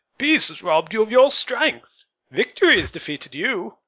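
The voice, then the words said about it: Bad Bane impression. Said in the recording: “it's just in Bane voice to me ... bad Bane impression”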